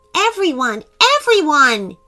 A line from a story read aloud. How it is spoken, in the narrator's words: he shouted excitedly